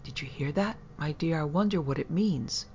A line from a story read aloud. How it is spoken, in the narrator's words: Strong whispering